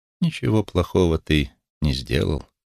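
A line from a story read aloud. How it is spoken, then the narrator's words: Soft speech. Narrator (Russian): мягко сказал Улис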